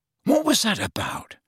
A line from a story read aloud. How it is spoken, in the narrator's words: whispered Ron